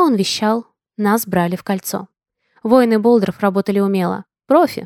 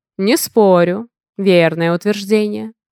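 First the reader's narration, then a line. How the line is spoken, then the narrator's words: Short chuckle. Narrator (Russian): коротко хохотнул Гун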